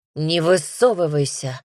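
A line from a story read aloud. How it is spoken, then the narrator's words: Growled. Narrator (Russian): зарычал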